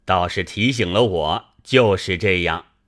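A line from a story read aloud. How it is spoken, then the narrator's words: Laughing. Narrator (Chinese): 贾政笑道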